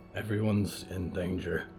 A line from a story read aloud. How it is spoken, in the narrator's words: Jonah muttered, putting a fist to his mouth